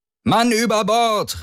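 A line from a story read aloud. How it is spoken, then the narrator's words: Called out. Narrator (German): rief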